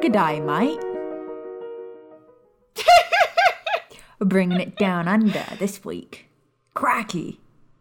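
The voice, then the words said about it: Bad put-on Australian accent. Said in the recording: “that's about much of a terrible Australian accent as I can do”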